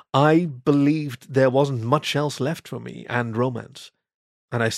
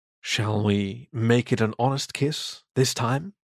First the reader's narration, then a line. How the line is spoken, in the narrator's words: He whispered